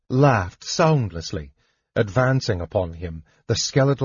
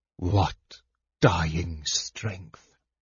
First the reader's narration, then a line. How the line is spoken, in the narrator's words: the Death Knight asked softly